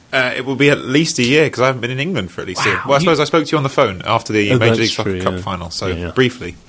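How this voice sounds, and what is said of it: Clipped English accent. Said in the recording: “I didn't sound like I picked up a Midwestern twang ... I'm still clinging on to my English accent ... Sounds very English ... Clipped.”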